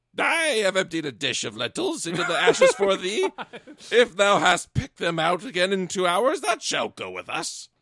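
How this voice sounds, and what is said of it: Rumpelstiltskin-like character voice. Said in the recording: “I'm doing the Rumpelstiltskin voice for the stepmom.”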